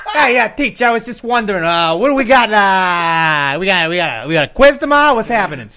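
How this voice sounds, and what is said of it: Put-on Delaware northeastern accent. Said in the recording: “I was using my fucking Delaware accent ... Delaware is basically just a shitty version of a New York accent. ... all like the northeastern accents”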